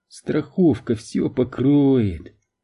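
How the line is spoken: Giggling to herself. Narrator (Russian): хихикнула про себя Эмили

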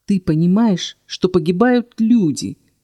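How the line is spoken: Hiss. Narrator (Russian): зашипела я

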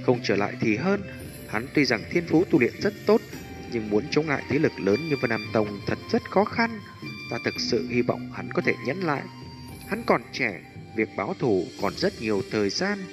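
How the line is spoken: Muttering. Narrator (Vietnamese): Hải Ba Đông lẩm bẩm nói

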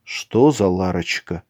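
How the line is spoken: Barely audible worried. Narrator (Russian): еле слышно промолвил Николай, обеспокоенно

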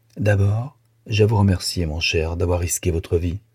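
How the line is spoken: Grave tone. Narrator (French): Et d'un ton grave

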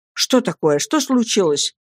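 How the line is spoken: Exclaimed. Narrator (Russian): воскликнул

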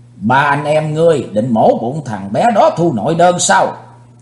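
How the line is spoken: Shouting. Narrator (Vietnamese): Thiên Sơn Long Nữ quát mắt nói

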